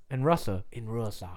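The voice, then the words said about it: Terrible put-on Russian accent. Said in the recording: “A terrible Russian accent. ... garbage.”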